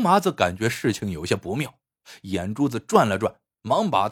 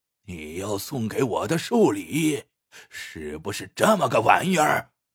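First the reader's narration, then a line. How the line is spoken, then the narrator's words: Drunk furious roar. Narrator (Chinese): 已喝得踉踉跄跄的杜黑虎 怒气冲天的冲刘麻子吼道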